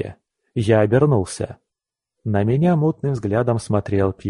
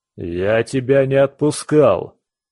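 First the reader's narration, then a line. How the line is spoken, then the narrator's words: Drunken roar. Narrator (Russian): взревела эта пьянь зеленая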